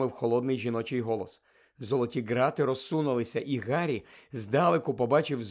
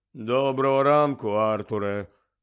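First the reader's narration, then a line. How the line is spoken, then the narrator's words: Grave greeting. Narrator (Ukrainian): привітався він за могильним голосом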